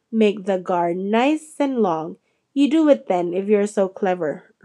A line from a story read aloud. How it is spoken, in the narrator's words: Ron snarled